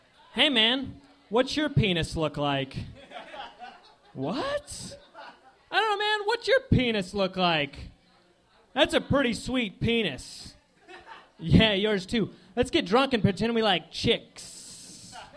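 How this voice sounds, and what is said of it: Dumb frat guy voices. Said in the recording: “my impression of two guys in a fraternity”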